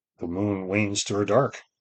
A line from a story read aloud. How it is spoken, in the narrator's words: murmured, awake in the dawn